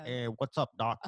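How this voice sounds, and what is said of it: Bugs Bunny cartoon voice impression. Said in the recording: “Do you got a good Bugs Bunny impression? ... That was a great impression.”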